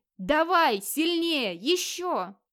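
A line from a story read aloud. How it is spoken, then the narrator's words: Inhuman roar, excited panting. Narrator (Russian): Нечеловеческим голосом орал Модвит, тяжело дыша от возбуждения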